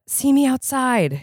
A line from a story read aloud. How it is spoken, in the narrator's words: Jade whispered